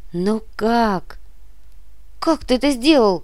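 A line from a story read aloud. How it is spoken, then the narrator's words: Embarrassed squeak. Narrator (Russian): Пискнула красная, словно рак, Инга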